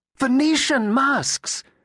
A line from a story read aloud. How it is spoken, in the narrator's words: exclaimed Julia